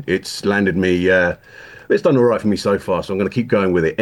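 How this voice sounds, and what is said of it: English accent. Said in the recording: “the way he says dreadful ... It's so much better coming across the Atlantic ... this accent ... the novelty of being the Englishman”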